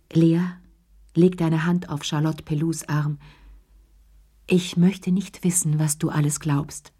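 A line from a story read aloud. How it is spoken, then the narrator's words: Gentle. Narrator (German): sagte sanft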